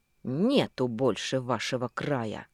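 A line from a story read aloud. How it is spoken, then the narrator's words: Maniacal laughter. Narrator (Russian): Совсем сумасшедшим смехом захохотал придурок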